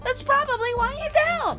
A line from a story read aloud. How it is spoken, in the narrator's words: Meg wailed